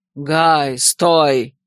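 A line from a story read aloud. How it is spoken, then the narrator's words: Angry bark. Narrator (Russian): Сердито рявкнул мне вслед Эрдал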